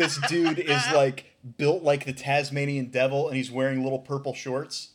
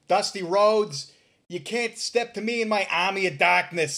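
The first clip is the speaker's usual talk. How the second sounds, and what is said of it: Thick Boston accent imitation. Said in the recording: “the thickest Boston accent you've ever heard”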